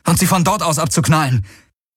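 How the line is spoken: Called out. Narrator (German): rief Garlin

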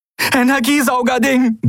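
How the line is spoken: Breathless reply. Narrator (German): gab Endriel atemlos zurück

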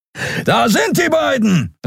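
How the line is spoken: Nonhuman voice calling. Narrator (German): rief eine nichtmenschliche Stimme

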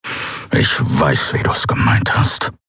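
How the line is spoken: Angry hiss. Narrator (German): fauchte er

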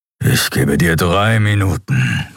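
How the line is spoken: Growl. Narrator (German): knurrte Keru

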